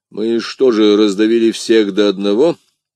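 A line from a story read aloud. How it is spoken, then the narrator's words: Plain. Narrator (Russian): спросил Атос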